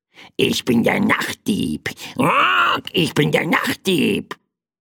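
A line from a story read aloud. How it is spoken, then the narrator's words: Small bird's croak. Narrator (German): krächzte das kleine Federvieh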